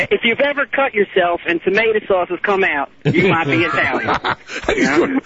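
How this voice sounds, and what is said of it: Put-on Southern accent. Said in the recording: “he's doing a southern accent, too”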